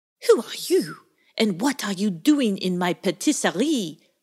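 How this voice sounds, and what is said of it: Stern voice with French accent. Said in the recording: “in a rather stern tone, with a French accent.”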